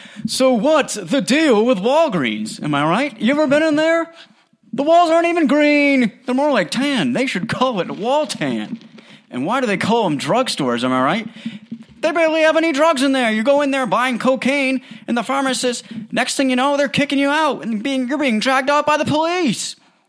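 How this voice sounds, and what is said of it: Jerry Seinfeld impression. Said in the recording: “my Jerry Seinfeld impression”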